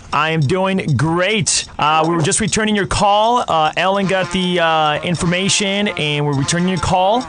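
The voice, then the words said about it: Okay Ryan Seacrest imitation. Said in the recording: “be Ryan Seacrest. Do a good imitation. It was an okay imitation. It wasn't that great, but the listener fell for it.”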